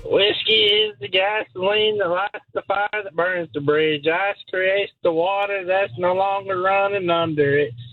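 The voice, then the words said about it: Imitates a country singer's voice. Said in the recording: “your best George Strait impression.”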